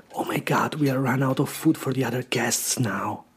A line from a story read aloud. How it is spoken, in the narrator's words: I heard the host whisper in his wife's ear